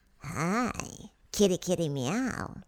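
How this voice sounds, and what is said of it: Playful cat character voice. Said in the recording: “You sound like a Chinese cat”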